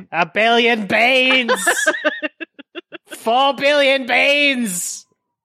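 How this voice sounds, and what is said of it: Bad put-on Australian accent. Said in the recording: “another bad Australian accent say beans”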